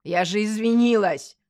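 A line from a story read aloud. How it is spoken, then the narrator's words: Sharp bark. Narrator (Russian): рявкнула Машка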